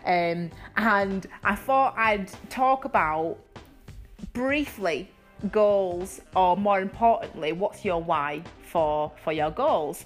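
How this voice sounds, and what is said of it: Energetic Yorkshire accent. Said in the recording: “my awesome, energetic Yorkshire accent”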